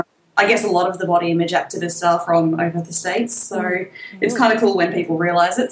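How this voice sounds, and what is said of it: Australian accent. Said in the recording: “you can probably tell from my accent, I'm quite Australian ... Some people do struggle to understand my accent”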